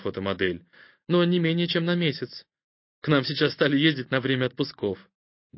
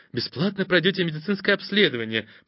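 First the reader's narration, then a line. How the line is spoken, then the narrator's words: Whispered, female. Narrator (Russian): прошептала она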